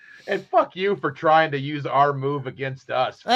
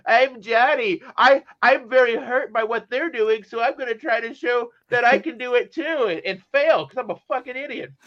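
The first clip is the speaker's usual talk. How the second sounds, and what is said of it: Mocking nerdy voice. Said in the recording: “the nerd voice”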